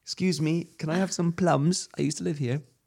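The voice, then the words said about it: Put-on poor British accent. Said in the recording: “What's with the accent? ... poor British accent, like Tiny Tim accent”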